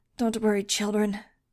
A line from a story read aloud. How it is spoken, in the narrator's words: he grunted